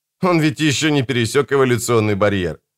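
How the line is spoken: Laughing. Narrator (Russian): рассмеявшись, сказал Бокату

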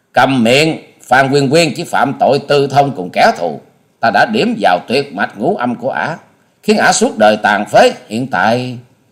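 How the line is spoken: Furious loud shout. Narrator (Vietnamese): Hà Xà tiên tử càng như lửa cháy thêm dầu, bà quát to

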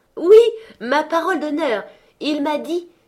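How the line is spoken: Exclaiming. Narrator (French): s'écria le neveu de Scrooge

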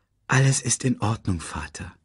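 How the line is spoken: Gentle. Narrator (German): sagte Simba sanft

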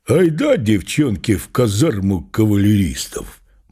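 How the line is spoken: Mannish voice, urging. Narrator (Russian): Мужским голосом агитировала она

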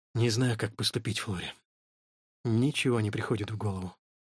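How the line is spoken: Quiet. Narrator (Russian): Вскоре он тихо произнес

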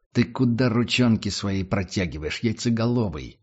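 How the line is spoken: Growling officer. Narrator (Russian): прорычал офицер

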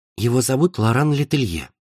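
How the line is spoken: Whispered. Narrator (Russian): прошептала Хлоя в затылок Лоре

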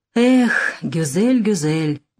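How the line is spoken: Grumbling. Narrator (Russian): проворчал Нессельроде-младший

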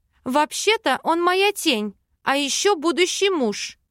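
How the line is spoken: Shouted after someone. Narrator (Russian): выкрикнула в спину Вела

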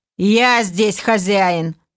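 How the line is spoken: Angry clipped words, elf. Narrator (Russian): зло отчеканил эльф

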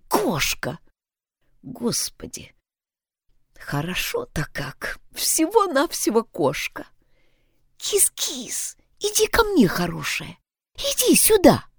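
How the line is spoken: Whispered call. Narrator (Russian): шепотом позвала

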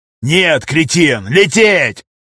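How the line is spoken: Yell. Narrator (Russian): Заорал Кроп

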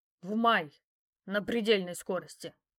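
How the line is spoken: Growl. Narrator (Russian): Рыкнул

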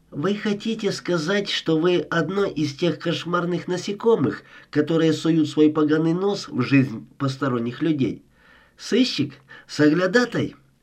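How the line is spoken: Sharp voice. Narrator (Russian): ее голос звучал резко

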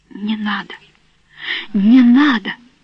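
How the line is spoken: Hoarse, furious whisper. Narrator (Russian): Она хрипло и яростно шептала

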